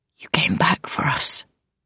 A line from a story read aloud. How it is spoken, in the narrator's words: he rasped at last